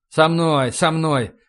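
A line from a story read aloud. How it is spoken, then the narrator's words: Grumbling. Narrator (Russian): проворчал Сандерс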